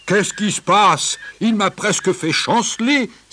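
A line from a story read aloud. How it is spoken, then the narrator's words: Elephant exclaiming. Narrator (French): s'écria l'éléphant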